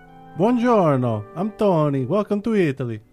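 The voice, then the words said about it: Put-on Italian accent. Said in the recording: “pull in some of the Italian accent”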